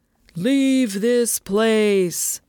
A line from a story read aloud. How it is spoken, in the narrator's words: Luan boomed